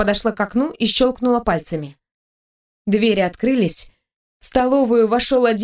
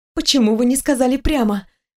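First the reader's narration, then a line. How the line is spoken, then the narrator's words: Breathless exhale. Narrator (Russian): выдохнула я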